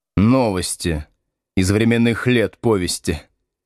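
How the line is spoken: Gloomy reply. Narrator (Russian): мрачно ответил Слушкин

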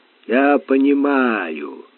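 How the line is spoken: Gloomy reply. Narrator (Russian): мрачно отозвался штурман

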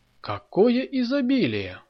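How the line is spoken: Delighted exclamation. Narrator (Russian): воскликнула Ольга, когда увидела уставленный явствами стол

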